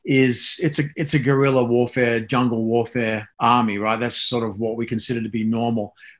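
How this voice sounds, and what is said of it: Australian accent. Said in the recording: “as you can probably tell from the accent, I came up in the Australian system”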